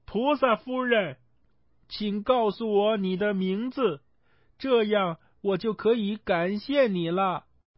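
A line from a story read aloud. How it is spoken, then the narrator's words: Calling out. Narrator (Chinese): 孙悟空抬起头，看到她飞走了，他飞在她身后，叫道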